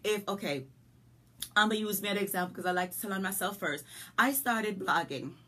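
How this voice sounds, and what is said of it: Jamaican country accent. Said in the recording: “you hear this accent? ... I'm a country girl from Jamaica with an accent. ... my accent's not going anywhere”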